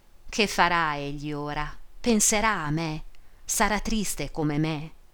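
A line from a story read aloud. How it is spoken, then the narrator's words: Muffled longing sigh. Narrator (Italian): sospirava con la bocca soffocata nel velo, oppressa da un irresistibile bisogno d'amore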